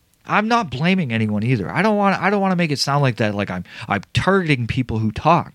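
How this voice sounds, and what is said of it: Usual voice. Nothing is said of it.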